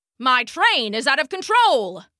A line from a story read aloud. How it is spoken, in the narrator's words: he shouted